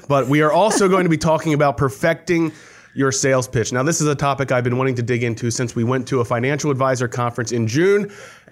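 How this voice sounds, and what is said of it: Congested, slightly breathless voice. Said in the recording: “I am catching my breath because ... I have a bit of a cold.”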